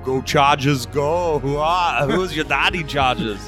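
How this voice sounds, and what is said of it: Imitates another person's voice. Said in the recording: “do an Arnold impression ... You can do a Go Chargers Go like Arnold.”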